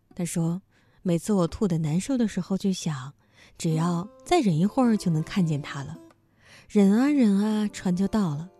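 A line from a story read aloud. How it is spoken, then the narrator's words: Girl, smiling. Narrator (Chinese): 女孩还是笑着说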